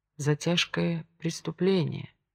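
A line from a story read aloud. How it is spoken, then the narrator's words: Repeating. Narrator (Russian): повторил Овод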